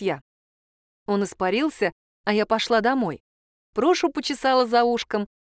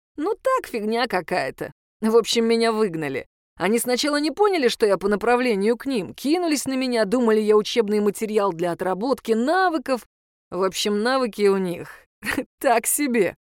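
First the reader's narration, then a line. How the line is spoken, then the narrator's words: Chuckling. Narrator (Russian): хохотнул он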